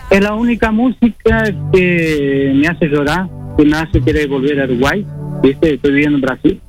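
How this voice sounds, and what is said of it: Uruguayan border Rivera accent. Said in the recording (Spanish): “Tenías un acento así riverense.”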